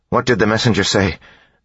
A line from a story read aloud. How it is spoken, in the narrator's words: Beads asked nervously